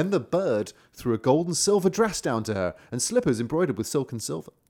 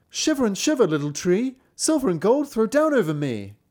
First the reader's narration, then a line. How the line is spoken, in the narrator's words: cried